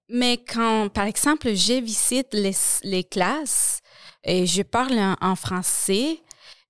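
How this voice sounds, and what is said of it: Non-native French accent. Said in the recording (French): “le français, ce n'est pas ma langue maternelle ... tu as un accent”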